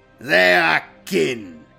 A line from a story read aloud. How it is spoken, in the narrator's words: replied Grimnar, his voice cold as a Fenrisian winter